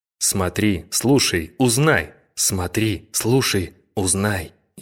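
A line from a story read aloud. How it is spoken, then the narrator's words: Chorus of voices, hot whisper. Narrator (Russian): хор любопытных голосов, кружа голову, жарко шепнул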